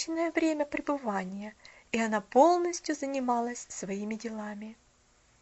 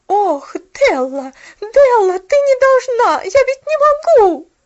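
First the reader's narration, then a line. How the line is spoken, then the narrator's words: Agitated shouting. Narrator (Russian): Взволнованно кричала она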